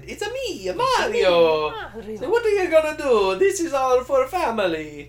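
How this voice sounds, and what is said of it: Exaggerated Italian accent. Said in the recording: “Italian ... he has that accent”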